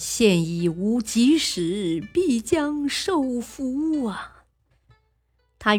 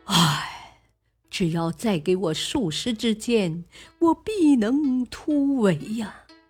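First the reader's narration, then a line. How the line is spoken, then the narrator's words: Defeated sigh. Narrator (Chinese): 李林兵败，叹曰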